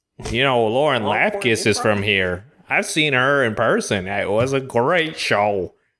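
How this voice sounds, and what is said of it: Exaggerated Southern-sounding accent. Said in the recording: “I don't know if I'm doing this accent. ... You're going Southern hard.”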